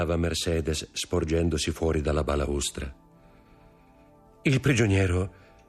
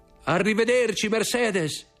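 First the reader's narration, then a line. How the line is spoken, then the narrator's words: Shouted. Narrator (Italian): gridò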